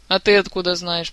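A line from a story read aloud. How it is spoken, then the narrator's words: Grumbling king. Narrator (Russian): проворчал король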